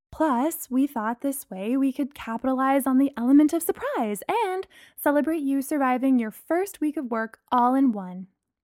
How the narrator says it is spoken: Bree said happily

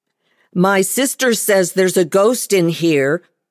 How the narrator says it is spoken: I cried out loud

